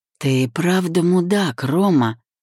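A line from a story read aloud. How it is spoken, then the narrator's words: Rumbling, hissed through teeth. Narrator (Russian): Пророкотал я и, стиснув зубы, прошипел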